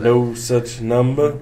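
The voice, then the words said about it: Elvis-style singing impression. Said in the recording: “your Elvis impression is pretty good.”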